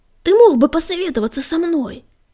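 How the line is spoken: Angry bark. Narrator (Russian): Сердито рявкнул Буран

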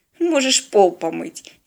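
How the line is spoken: Snide suggestion. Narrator (Russian): ехидно предложила спина Теодора

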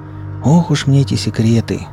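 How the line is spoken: Sighing elephant. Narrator (Russian): вздохнул слон

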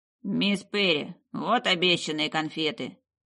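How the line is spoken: Prim, nasal servant. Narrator (Russian): чопорно произнес слуга Харда с гнусавым прононсом

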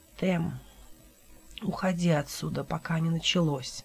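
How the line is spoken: Weak strained whisper, dry lips. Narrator (Russian): пошевелил пересохшими губами и с трудом прошептал

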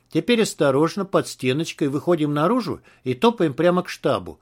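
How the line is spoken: Plain. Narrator (Russian): сказал он

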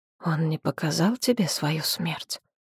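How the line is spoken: Barely audible whisper. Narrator (Russian): Голос молодого правителя упал до чуть слышного шепота

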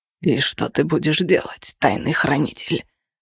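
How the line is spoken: Hoarse wheeze. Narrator (Russian): прохрипел он

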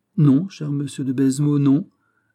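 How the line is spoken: Plain. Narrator (French): dit le mousquetaire

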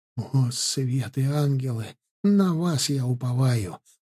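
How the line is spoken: Involuntary whispered recitation. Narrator (Russian): против воли по памяти прошептал обычно далекий от религии Бажен

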